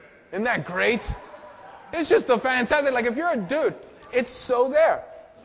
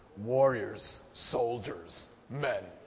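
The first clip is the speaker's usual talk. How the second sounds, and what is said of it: Deliberately deepened voice. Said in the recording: “you have to say it in a deeper voice.”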